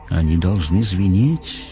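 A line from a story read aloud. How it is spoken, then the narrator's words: Whispered in ear. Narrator (Russian): шепнул Дарветер в ухо Веды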